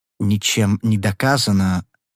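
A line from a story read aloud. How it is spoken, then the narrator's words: Old man's soft objection. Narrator (Russian): мягко возразил старик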